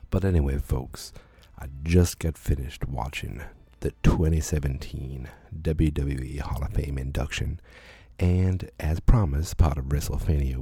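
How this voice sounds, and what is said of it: Quiet low voice, southern accent. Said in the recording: “You'll have to excuse my sexy voice. ... I do not want to wake her up. All of a sudden, I've got a southern accent, too.”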